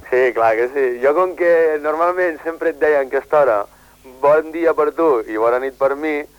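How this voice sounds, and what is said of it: Western Catalan accent. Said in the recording (Catalan): “jo sento un accent així a ponent”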